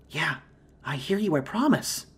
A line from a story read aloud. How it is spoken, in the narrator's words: whispered from the back